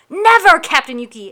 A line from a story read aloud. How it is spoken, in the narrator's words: shouted in unison